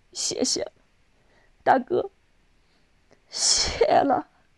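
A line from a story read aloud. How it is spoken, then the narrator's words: Crying. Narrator (Chinese): 少丽哭着说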